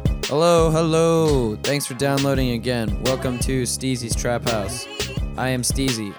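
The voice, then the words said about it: Tired, exhausted-sounding voice. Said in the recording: “I'm exhausted, as you can tell already.”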